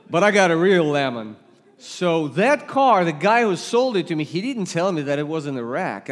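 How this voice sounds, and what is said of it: Russian accent. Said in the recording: “you detect an accent. I come from Russia.”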